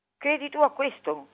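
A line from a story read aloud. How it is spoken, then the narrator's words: Angry shout. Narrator (Italian): gli gridò con rabbia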